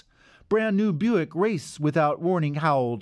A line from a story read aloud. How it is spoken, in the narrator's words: laughed Dean